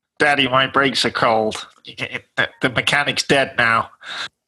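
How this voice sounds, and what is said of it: Imitates another person's voice. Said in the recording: “That's quite a scary impersonation”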